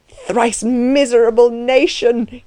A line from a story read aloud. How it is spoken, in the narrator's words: he cried aloud